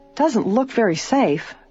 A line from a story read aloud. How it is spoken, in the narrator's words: Bess remarked uneasily